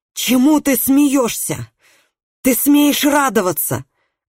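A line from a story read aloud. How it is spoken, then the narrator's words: Harsh frantic shouting. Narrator (Russian): кричала она резким безумным голосом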